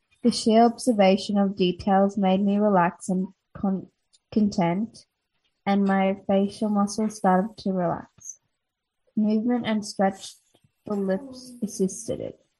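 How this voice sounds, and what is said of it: Australian accent. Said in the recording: “Your voice became more Australian accent.”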